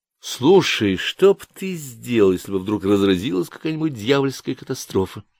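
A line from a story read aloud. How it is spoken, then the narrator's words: Plain. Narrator (Russian): спросил Пантелей Блейзера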